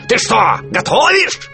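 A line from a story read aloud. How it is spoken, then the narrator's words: Yelling. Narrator (Russian): заорал он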